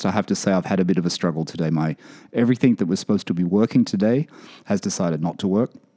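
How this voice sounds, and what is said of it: Hoarse, failing voice. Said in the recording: “as you can hear, I'm, I'm, losing my voice for a second.”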